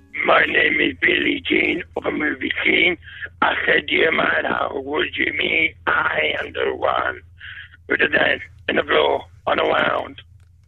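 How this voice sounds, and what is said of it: Disguised fake singing voice. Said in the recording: “fake voice on the karaoke ... He's disguised his voice. He put on a fake voice.”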